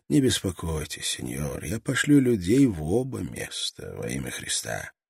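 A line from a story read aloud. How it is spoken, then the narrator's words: Gentle, reassuring. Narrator (Russian): видя, насколько глубока тревога Струана, он мягко добавил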